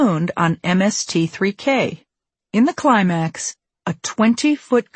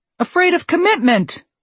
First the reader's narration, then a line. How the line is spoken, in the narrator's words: exclaims Space Ghost